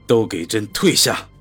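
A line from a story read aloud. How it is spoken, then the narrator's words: Cold clipped words. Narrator (Chinese): 嘴里冷冷的吐出几个字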